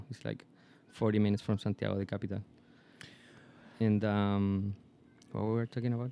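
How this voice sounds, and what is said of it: Foreign-accented English, called sexy. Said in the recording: “that sexy accent”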